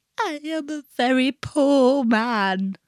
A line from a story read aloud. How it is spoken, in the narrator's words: he sobbed